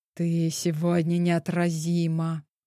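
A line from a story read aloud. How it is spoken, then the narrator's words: Annoyed, near growl. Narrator (Russian): едва не зарычала от досады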